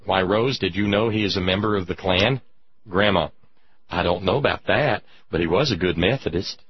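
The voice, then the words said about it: Southern American accent. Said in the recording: “I revert to the Southern accent. I can't help it. It goes clean to the bone.”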